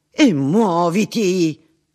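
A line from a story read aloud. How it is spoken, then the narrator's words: Burst out. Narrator (Italian): sbottò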